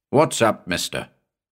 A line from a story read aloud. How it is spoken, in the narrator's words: he growled at me